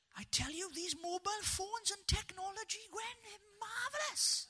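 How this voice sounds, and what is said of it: Impression of Bryn from Gavin and Stacey. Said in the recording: “I can do a lovely impersonation of Bryn for you.”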